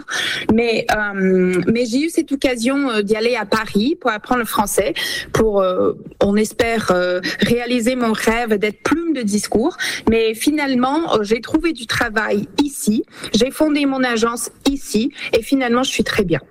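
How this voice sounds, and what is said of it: French spoken with France French accent. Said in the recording (French): “je suis la seule à parler le français, mais avec un accent de France, ce qui est assez bizarre”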